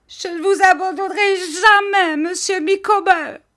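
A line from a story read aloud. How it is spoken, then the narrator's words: Shouting. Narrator (French): cria-t-elle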